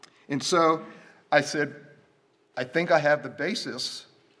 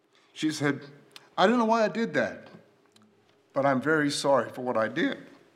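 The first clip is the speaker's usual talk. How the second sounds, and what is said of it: Emotional, choked-up speaking. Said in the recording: “Well, sorry about that. Got emotional.”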